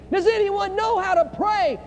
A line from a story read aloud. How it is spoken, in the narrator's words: on a beach with gunfire going in every direction, begins screaming